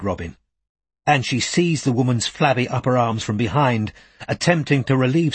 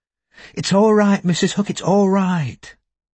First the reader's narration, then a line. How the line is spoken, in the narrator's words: she said soothingly